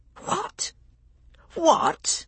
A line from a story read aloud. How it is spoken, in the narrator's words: I spluttered, too shocked to formulate a complete sentence